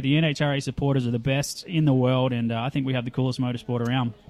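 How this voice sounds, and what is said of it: Australian accent. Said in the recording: “guys who sound like you with the Australian accent”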